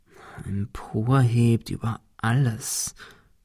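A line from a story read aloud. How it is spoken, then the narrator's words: Murmured. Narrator (German): murmelte Ben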